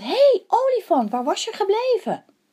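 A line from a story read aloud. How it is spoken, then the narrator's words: Calling to elephant. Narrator (Dutch): Hij riep naar de olifant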